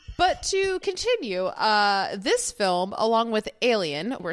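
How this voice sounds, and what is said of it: Usual voice. Nothing is said of it.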